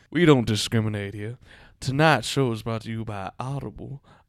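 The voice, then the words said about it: Low radio voice, southern accent. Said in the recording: “You have to do it in a low radio voice ... Why do I have a southern accent? ... you sound like Foghorn Leghorn trying to host a radio show”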